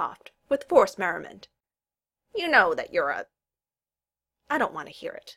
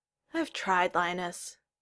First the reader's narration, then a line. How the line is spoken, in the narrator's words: Kel sighed